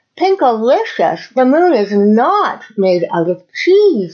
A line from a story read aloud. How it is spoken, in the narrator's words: I yelled with excitement